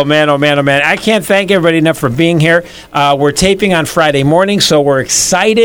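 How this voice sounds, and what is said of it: Usual voice. Nothing is said of it.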